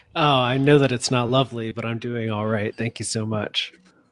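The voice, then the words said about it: American accent. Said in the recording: “with that lovely American accent”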